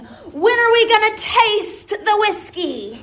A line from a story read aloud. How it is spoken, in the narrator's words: more and more urgent, until in the silence they practically scream